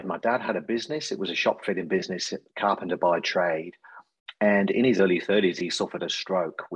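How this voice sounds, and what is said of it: English accent from central England. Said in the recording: “you'll probably gather from my accent, not a local boy to Australia. So originally from the UK, a place called Coventry in central England.”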